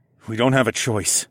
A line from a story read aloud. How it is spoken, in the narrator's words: I said firmly